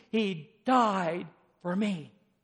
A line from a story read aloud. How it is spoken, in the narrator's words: the redeemed exclaiming